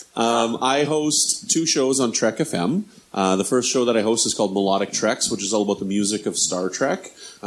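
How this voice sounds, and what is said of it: Canadian accent. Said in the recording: “I'm Canadian ... as you can probably tell from my my accent”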